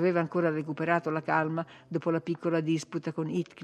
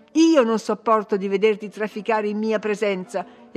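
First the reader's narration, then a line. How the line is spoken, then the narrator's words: Imperious exclamation. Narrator (Italian): esclamò imperiosa la signorina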